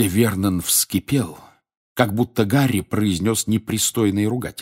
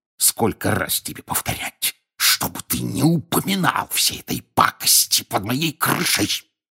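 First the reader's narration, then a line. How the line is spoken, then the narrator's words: Hissing. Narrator (Russian): прошипел он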